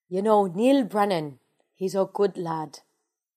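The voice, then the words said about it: Weak put-on Irish accent. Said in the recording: “Do you want to hear my Irish accent? ... It's probably really shitty.”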